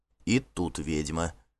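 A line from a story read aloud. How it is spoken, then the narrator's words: Undertone remark. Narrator (Russian): вполголоса заметил Гельт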